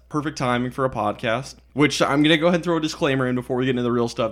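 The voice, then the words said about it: Tired voice with sore throat. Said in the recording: “I'm pretty tired. My throat kind of hurts. ... I have a sore throat”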